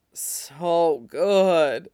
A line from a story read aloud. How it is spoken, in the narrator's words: Shane moans as Ilya fucks him through it